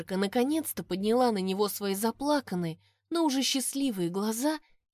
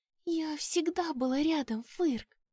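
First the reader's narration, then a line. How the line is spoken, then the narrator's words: Whisper. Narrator (Russian): прошептала она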